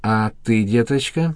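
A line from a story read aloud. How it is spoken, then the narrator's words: Gentle question. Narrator (Russian): ласково спросила Лидия Ивановна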